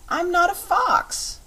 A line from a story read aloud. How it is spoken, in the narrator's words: cried Button-Bright